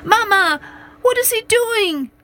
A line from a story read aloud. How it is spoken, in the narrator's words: cried little boy